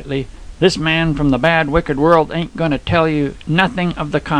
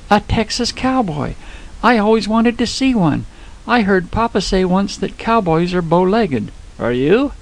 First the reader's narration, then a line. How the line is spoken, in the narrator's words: her eyes were dancing as she exclaimed